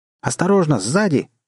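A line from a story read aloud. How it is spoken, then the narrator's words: Sudden shout. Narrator (Russian): вдруг закричал Джимми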